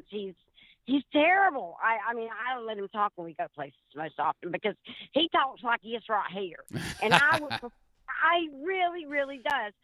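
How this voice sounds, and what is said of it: Southern US accent. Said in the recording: “You've got the cool Southern accent ... I do have a Southern accent. I have to admit, I'm not quite as Southern as some”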